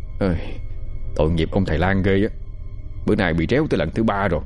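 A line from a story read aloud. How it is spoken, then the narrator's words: Drowsy yawning mutter. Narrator (Vietnamese): Thằng Tí đang ngủ cũng giật mình bật dậy, vừa ngáp vừa chặt lưỡi lầm bầm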